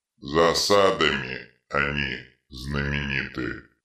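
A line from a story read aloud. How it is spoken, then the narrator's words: Muttering. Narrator (Russian): пробормотал детрит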